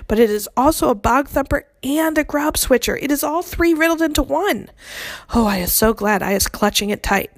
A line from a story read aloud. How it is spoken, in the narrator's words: cried the exasperated BFG